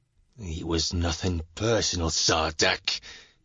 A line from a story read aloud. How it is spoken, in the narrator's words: he hisses through clenched teeth